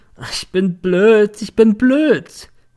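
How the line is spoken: Drunken remorseful sobbing. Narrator (German): Sie hatte sich besoffen, hatte nun einen moralischen und schluchzte in einer Tour

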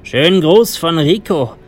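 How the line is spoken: Calling out. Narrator (German): rief mir der eine zu

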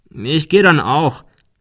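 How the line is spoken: Farewell call into office. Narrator (German): rief er zum Abschied in das Büro hinein

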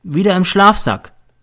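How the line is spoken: Plain. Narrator (German): antwortet er

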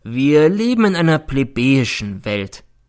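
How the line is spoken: Sad. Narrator (German): nickte traurig zu

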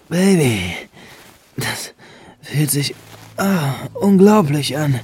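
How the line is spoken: Moaning louder. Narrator (German): stöhnte Benjamin nun etwas lauter

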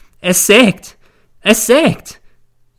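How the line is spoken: Wailing lament. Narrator (German): jammert sie

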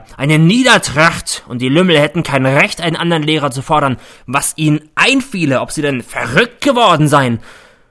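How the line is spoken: Roar. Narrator (German): brüllt er

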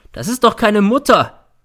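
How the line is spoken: Shouting. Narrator (German): schreit er

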